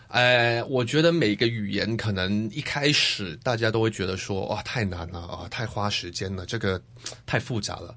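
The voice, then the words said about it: Slight Taiwanese Mandarin accent. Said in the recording (Chinese): “大家可能会听到有一点点这个...台湾的口音、...台湾腔...在里面”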